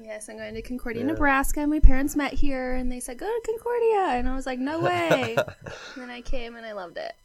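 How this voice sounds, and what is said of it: Slight Missouri twang. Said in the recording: “I'm from Concordia, Missouri, which explains my little funky twang that I got going on.”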